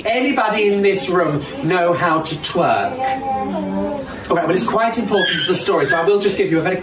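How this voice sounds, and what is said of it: British Birmingham (Brummie) accent. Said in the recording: “from the accent, I assume this is in the UK ... Not even making an effort to make my voice deeper. I mean, I'm just going to speak in my regular brummy.”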